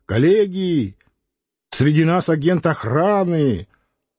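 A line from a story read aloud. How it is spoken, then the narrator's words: Boy shouting. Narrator (Russian): курносый, розовощекий мальчик кричал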